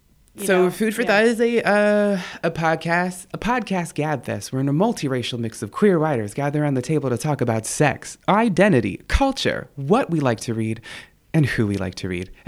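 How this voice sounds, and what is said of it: Polished radio-host voice. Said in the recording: “I've been cultivating my radio voice ... That was awesome”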